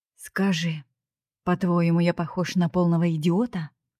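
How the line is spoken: Growling in her face. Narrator (Russian): Он прорычал девушке прямо в лицо

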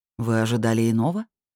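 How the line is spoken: Calm clarifying question. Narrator (Russian): спокойно уточнил

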